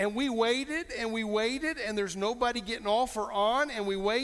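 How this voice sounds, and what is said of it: Usual voice. Nothing is said of it.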